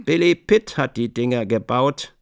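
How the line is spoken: Plain. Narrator (German): sagte Buck Mulligan

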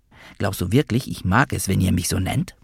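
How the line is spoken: Hiss. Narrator (German): zischte

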